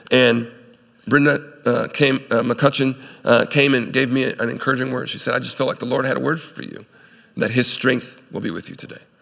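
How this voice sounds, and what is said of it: Sick, congested-sounding voice. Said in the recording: “I was feeling ill. You can hear it in my voice. I'm still getting over this cold.”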